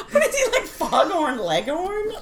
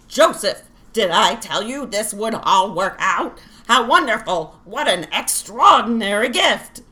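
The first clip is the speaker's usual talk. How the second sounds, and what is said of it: Jewish grandmother old lady voice. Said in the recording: “I'm doing, like, Jewish grandmother. Like, that's the only old lady voice I can do.”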